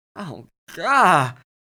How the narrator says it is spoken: Max groaned again

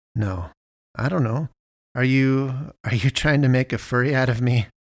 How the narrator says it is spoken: I laughed

